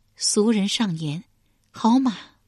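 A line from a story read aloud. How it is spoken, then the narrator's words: Long sigh. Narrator (Chinese): 西归长叹一声，终于开口道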